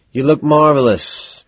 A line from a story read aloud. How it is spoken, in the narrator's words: sigh